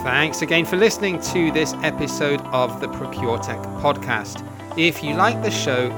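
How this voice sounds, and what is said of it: Birmingham English accent. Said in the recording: “I come from Birmingham and everyone says it's a horrible accent”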